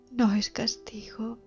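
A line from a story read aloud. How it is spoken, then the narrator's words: Mother sobbing. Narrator (Spanish): sollozaba la madre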